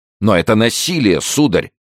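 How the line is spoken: Shouted. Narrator (Russian): крикнул Кольбер

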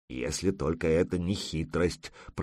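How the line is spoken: Grumbling. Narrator (Russian): проворчал Ворчун

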